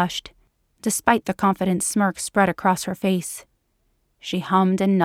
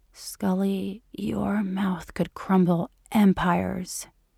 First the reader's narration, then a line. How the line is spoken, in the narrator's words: He whispered in awe